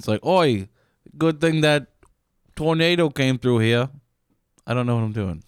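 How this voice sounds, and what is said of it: Exaggerated stereotyped accent character voice. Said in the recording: “Why are you doing a gay Asian voice?”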